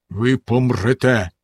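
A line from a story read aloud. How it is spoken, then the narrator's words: Stern. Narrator (Ukrainian): суворо сказав він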